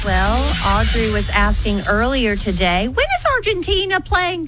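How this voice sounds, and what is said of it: Imitates another person's voice. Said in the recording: “I was trying to do my Audrey ... You're Audrey with a British accent”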